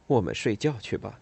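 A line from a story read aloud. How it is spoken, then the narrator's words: Soft muttering. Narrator (Chinese): 他不忍心让他不安，就嘀咕了一句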